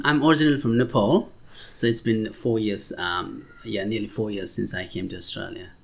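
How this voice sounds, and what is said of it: Non-Australian, Nepali-accented English. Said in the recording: “your accent is not Caucasian Australian like mine”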